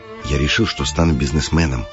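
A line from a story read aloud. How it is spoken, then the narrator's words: Whisper. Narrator (Russian): шепнул Макар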